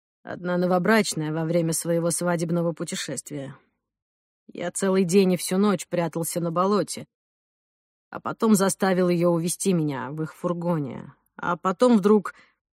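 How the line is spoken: Quiet sigh, answering. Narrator (Russian): Он тихо вздохнул и ответил

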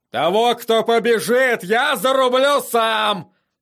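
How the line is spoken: Roared. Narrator (Russian): проревел он

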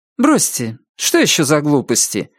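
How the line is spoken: Said sharply. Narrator (Russian): резко проговорила Анна

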